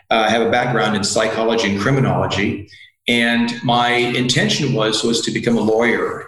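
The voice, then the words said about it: American English accent. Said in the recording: “As you can probably hear from my accent, I'm originally from North America, from the U.S.”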